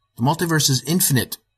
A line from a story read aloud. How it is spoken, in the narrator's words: I exclaimed